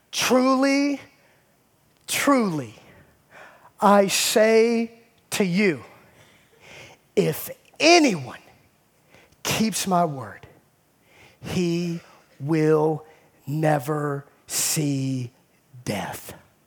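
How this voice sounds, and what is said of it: Slow, deliberate reading. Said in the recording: “I know I talk fast, so let me read it slowly ... I'm gonna read it slowly”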